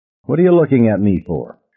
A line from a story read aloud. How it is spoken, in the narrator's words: she asked crossly